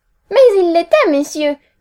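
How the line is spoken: Fiery exclamation. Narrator (French): s'écria ma sœur avec feu

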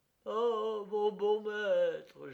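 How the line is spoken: Servant moaning. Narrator (French): gémissait le serviteur

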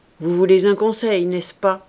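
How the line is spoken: Rough voice. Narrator (French): dit-il enfin d'une voix rude

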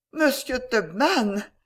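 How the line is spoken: Embarrassed exclamation. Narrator (French): s'écria Rachel en devenant aussi rouge que son arrosoir

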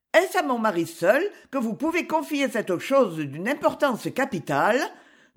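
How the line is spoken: Encouraging question. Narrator (French): demanda-t-elle d'un ton encourageant

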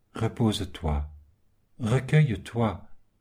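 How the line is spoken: Calm. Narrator (French): fit calmement l'argilier

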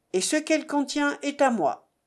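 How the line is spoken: Firm voice. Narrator (French): dit-il d'une voix ferme

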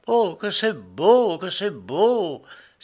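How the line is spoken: Exalted cry. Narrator (French): s'écriait-il avec exaltation

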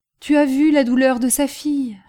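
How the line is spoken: Pleading reply. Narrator (French): répliqua Defarge d'une voix suppliante

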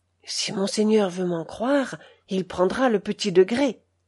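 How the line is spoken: Valet's respectful whisper. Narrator (French): son valet de chambre de confiance lui dit très respectueusement, tout bas

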